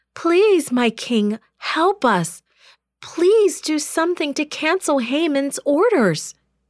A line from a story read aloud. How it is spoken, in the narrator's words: cried